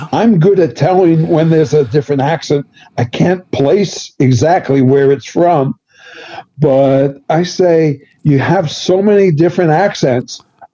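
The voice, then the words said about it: Bronx accent. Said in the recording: “Bronx accent”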